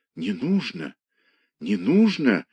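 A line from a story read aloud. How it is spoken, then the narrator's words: Muttering. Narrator (Russian): забормотала она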